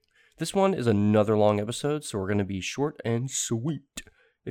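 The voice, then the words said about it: Congested, slightly rough voice. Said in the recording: “my voice sounds a little crunchy this week. I've got a head cold”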